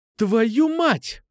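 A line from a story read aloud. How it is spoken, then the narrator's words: Exclaimed. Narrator (Russian): воскликнул я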